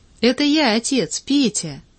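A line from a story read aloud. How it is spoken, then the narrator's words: Joyful laughing boy. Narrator (Russian): мальчик радостно засмеялся успеху своего сюрприза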